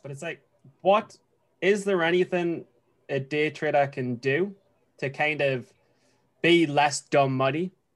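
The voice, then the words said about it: Noticeable accent, hard to follow. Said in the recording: “my accent is tough for you guys”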